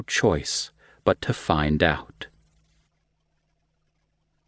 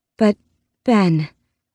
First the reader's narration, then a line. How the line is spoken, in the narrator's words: breathed